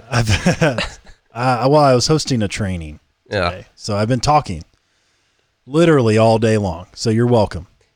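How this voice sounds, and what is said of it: Raspy, slightly rough voice. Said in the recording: “his voice is a little bit raspy... It's raspy. A little rough around the edges.”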